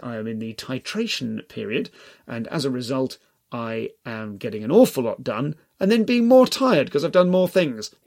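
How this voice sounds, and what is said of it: Dry, dehydrated-sounding voice. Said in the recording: “I'm dehydrated. You can probably hear that from my voice.”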